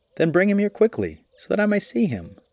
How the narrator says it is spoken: cried the lion

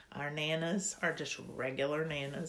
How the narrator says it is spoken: she said

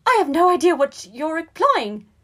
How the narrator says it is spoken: shrieked, eyes wide with fear

